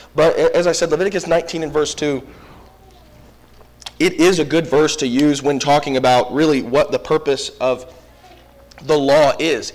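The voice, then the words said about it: Hoarse voice. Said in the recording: “My voice is a little hoarse. It's just the after effects of the cold”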